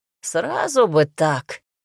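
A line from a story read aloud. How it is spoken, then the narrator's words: Scoffing grunt. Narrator (Russian): хмыкнул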